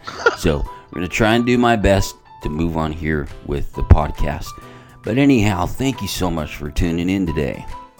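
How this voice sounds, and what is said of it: Scratchy, congested voice. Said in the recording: “I got hit with what could be a cold yesterday, and I'm feeling a little scratchy in the tonsils, and the nose is starting to run ... My voice is pretty scratchy right now, and the nostrils are a little filled with mucus”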